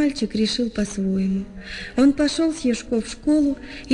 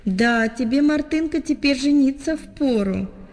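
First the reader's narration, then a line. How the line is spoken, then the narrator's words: Laughing. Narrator (Russian): смеясь, говорили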